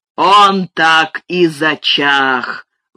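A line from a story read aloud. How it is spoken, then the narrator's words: Roar. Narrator (Russian): взревел Лен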